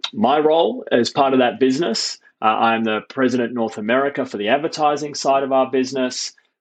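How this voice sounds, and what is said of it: Non-American accent. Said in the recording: “somebody with my accent ... somebody who can't even vote yet”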